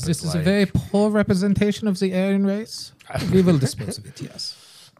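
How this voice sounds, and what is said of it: Put-on fascist villain accent. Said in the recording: “You got the accent.”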